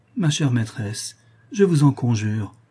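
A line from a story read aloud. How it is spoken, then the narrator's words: Pleading. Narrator (French): reprit Toinon suppliante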